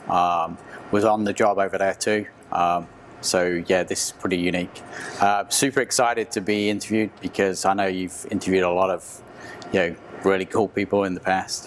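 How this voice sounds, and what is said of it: English accent. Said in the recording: “you can tell from my accent, I'm originally from England”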